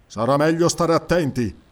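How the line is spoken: Grumbling. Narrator (Italian): brontolò il cimmero

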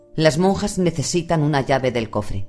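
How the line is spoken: Weary tone. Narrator (Spanish): dijo con tono cansino

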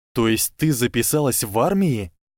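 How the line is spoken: Enthusiastic exclamation. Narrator (Russian): воскликнул Гарри с неожиданным энтузиазмом

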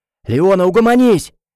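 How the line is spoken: Shouting. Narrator (Russian): крикнул Тофлер

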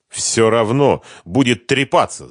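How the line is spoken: Angry interruption. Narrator (Russian): зло прервал его хозяин

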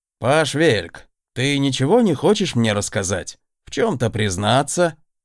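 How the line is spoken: Roundabout opening. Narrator (Russian): Издалека начал мастер-наставник

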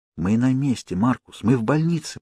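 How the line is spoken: Whisper. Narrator (Russian): прошептал мальчику

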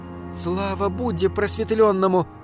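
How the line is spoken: Muttered. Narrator (Russian): пробормотала госпожа Тоба

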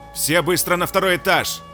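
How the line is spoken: Thunderous roaring shout, guard. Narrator (Russian): Громогласным рыком прокричал охранник

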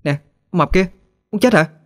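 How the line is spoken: Exasperated loud shout. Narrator (Vietnamese): Hết đường khuyên nhủ, Thư liền cố hét thật lớn

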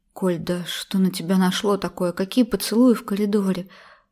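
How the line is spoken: Gentle, smiling. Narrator (Russian): Мягко улыбнулась Эльвира Тимофеевна

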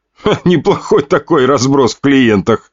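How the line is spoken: Chuckling remark. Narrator (Russian): хохотнул блондин

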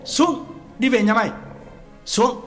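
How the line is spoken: Angry shout. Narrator (Vietnamese): Quán quát

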